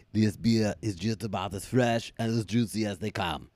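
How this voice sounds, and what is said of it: Arnold Schwarzenegger impression accent. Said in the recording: “switch it over to your accent of Van Damme. Not Van Damme. ... Arnold Schwarzenegger?”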